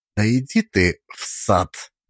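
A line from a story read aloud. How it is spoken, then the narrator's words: Angry hiss. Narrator (Russian): прошипела она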